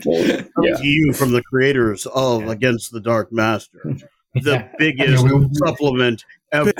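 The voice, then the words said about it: Dramatic movie trailer announcer voice. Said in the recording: “Epic music and trailer voice.”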